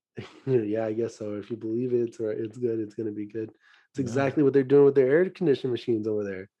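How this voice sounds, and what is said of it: Voice sounds a little weird. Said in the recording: “my voice sounds a little bit weird. I am getting over a little bit of a sickness”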